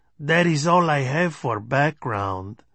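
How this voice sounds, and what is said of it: Stage Mexican accent. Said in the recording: “in his stage Mexican accent.”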